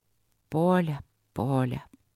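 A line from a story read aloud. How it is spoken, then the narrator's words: Muffled low voice. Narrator (Russian): глухо заговорил он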